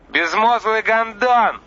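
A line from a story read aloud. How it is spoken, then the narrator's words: Yelled back. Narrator (Russian): заорал в ответ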